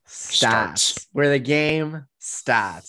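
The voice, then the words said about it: Put-on Boston accent. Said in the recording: “I'm taking your Boston accent from you. I'm going to have it now.”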